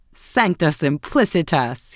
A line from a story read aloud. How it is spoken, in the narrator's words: he exclaimed